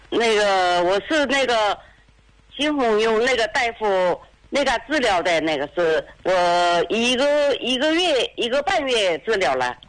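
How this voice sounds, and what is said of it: Chaozhou accent, sweet soft voice. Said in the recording (Chinese): “你看我一听你说话的口音，哎，像潮州人 ... 这声啊特别甜美，特别柔顺呐”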